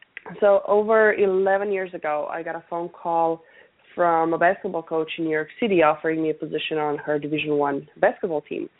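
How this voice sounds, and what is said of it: Noticeable foreign accent. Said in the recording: “some of the listeners might be picking up on the accent. Today's one of those days when it's pretty apparent.”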